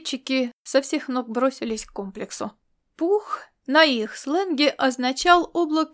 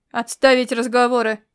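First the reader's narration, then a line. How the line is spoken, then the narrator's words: Growled order. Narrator (Russian): рыкнул Чарцей Сандисру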